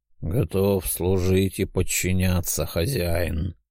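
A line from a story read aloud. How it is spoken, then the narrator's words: Indifferent voice. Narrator (Russian): безразличным голосом произнес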